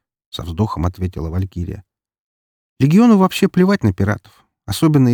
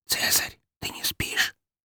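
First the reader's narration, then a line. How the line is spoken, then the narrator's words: Loud whisper. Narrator (Russian): прошептала она чуть ли не на весь корабль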